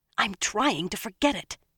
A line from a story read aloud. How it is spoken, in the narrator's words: Egwene said fiercely